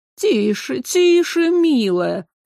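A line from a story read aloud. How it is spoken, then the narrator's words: Hoarse, uncomfortable voice. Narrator (Russian): Голос был хриплым, неуютным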